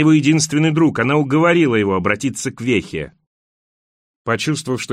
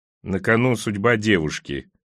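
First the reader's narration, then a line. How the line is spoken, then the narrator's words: Embarrassed grumbling. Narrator (Russian): проворчал Бахман, чувствуя, как краснеет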